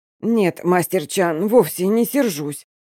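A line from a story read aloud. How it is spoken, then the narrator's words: Hoarse, strained answer. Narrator (Russian): хрипло отвечаю я, с трудом поднимаясь с пола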